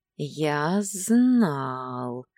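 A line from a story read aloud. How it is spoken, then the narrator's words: Satisfied drawl. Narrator (Russian): довольно протянул Дагейра, вовсе не удивленный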